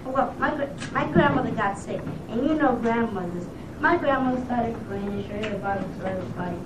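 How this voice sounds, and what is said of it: Strong New York accent. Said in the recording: “was a strong New York accent for that age. ... I could hear the accent, too. ... That was super strong.”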